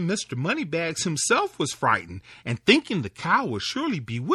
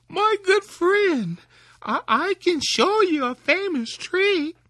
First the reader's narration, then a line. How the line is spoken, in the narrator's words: Tom called out to the wolf